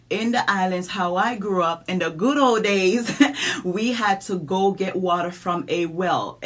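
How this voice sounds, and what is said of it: Island accent. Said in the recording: “I'm country. I'm from the islands. Y'all hear this accent.”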